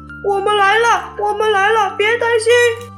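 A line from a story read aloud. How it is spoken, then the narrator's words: Shouting. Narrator (Chinese): 小刺猬的呼喊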